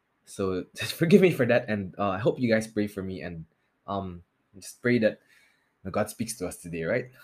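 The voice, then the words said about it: Nasal, sore-throated voice. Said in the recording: “my voice sounds a little bit weird or nasally today. I have a sore throat”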